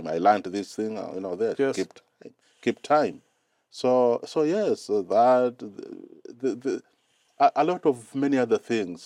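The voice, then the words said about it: Non-native English accent. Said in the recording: “So my accent is it's different. It's funny”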